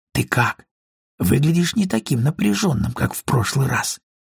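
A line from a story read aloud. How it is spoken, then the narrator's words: Quiet speech. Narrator (Russian): тихонько проговорила она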